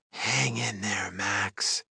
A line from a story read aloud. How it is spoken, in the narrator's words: Kelsey whispered